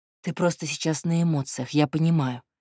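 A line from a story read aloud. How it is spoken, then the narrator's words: Unexpectedly soft. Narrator (Russian): неожиданно мягко сказал Платон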